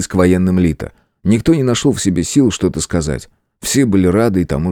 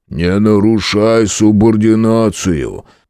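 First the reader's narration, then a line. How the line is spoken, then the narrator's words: Booming, not angry. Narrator (Russian): прогремел Грег, впрочем, без особой злости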